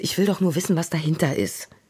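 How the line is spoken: Sighing. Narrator (German): Lenia seufzte

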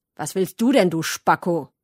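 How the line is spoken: Sharp, cutting question. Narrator (German): hat er gefragt und seine Stimme hat so scharf geklungen wie eine Papierschere

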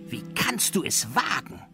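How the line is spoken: Hissing from above. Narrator (German): fauchte da eine Stimme über ihm

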